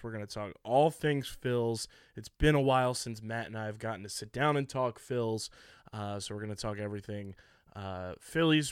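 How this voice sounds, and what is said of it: Hoarse, worn-out voice. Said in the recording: “my voice is pretty much shot”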